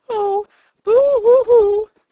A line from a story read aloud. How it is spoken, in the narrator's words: sobbed the woman, giving way to a fresh burst of grief